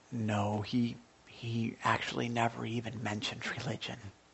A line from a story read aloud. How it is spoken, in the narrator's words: had a chance to calm down, and he sighed, and he said, with a little embarrassment